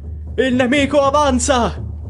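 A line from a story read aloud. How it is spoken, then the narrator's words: Sudden shout. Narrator (Italian): grida ad un tratto qualcuno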